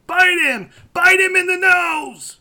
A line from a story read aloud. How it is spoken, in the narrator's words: you can hear Chris Farley yelling